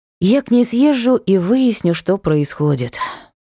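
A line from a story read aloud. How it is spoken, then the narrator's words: Promised with a sigh. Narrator (Russian): пообещала я, вздохнув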